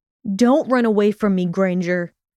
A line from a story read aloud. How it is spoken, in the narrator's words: he shouted after her